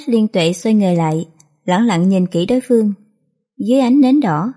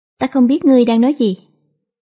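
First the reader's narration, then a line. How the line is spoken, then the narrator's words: Smiling. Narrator (Vietnamese): mỉm cười nói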